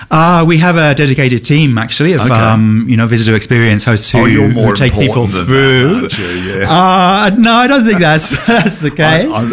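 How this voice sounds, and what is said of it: Slight British accent. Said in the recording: “I'm getting a bit of an accent ... I was from the UK”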